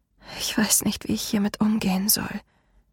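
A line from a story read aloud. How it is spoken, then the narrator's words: Muffled whisper. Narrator (German): flüsterte ich und vergrub mein Gesicht in seinem Fell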